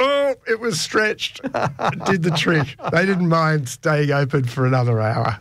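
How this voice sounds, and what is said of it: Usual voice. Nothing is said of it.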